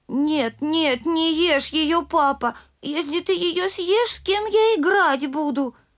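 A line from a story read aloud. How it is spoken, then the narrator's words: Squeaky, high-pitched plea. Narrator (Russian): запищал Мишутка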